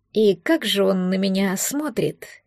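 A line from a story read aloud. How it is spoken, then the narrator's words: Forced calm, nervous. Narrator (Russian): Поинтересовалась она, стараясь, чтобы голос звучал спокойно, хотя сердце учащенно забилось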